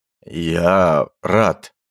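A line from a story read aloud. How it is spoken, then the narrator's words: Shocked hoarse wheeze. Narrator (Russian): просипел охотник, чувствуя себя брошенным в ледяную воду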